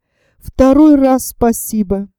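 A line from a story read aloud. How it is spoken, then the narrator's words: Shaky voice. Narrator (Russian): дрогнувшим голосом проговорил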